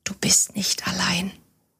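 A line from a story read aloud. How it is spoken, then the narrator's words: Almost whispering. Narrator (German): als ob sie ihm zuflüsterte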